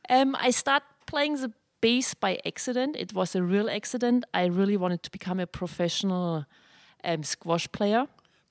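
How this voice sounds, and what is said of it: German accent in English. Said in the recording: “I'm original from Germany. You definitely can hear my accent, which I never lose ... I'm a true German”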